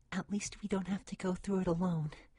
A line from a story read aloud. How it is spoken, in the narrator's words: cooed softly